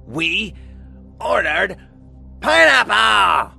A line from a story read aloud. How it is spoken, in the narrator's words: Colleen shrieked